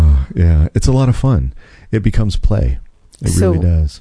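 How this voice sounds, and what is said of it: Usual voice. Nothing is said of it.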